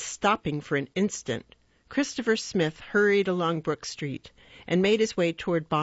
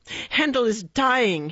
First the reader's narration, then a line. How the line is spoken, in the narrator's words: he cried unceremoniously